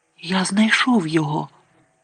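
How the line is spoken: Whispered. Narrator (Ukrainian): прошепотів

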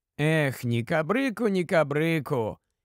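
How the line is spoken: Sighing. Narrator (Ukrainian): тільки й зітхнув Тіквік

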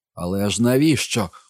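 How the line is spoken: Desperate shout. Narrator (Ukrainian): у відчаї закричав Гай

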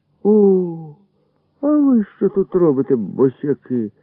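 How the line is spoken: Surprised exclamation. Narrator (Ukrainian): здивовано вигукнув Бардадим

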